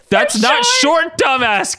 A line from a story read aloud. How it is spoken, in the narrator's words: Katie yelled